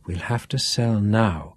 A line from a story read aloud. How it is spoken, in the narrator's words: whispered Duff